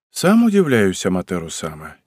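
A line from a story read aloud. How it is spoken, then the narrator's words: Slight sigh. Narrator (Russian): чуть вздохнул он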